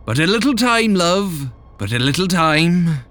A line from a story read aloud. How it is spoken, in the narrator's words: called out